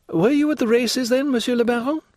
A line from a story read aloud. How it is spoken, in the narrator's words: inquired the Countess eagerly